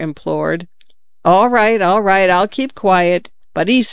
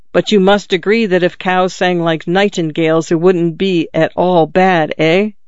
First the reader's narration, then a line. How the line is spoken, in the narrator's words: The father smiled skeptically and growled again